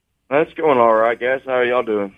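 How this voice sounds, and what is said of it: Flat, unenthusiastic tired delivery. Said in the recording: “You sound so enthusiastic.”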